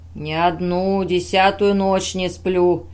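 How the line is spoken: Terrible voice, old man. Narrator (Russian): ужасным голосом произнес дядя

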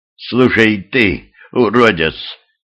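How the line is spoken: Hoarse rasp. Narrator (Russian): прохрипела Юля

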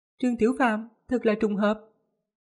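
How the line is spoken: Smiling. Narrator (Vietnamese): mỉm cười nói

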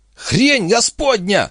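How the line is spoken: Shriek. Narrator (Russian): взвизгнул Вимс

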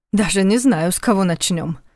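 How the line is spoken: Snorted. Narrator (Russian): фыркнул Войтах

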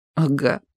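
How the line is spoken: Sobbing. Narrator (Russian): всхлипнул опять

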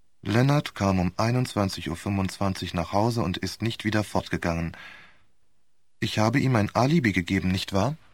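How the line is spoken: Monotone repetition. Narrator (German): Wohl wiederholte mit monotoner Stimme

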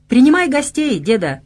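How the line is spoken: Cheerful shout. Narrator (Russian): весело заорал, предвкушая тепло хаты и сухую одежду

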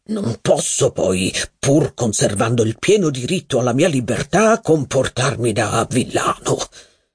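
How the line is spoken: Low voice. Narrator (Italian): proseguì a voce bassa

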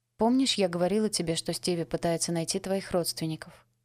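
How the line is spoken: Plain. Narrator (Russian): спросила я

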